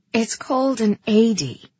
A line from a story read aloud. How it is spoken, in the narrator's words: she said